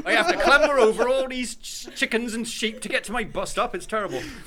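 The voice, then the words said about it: Put-on rural English accent. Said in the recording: “Door set accent”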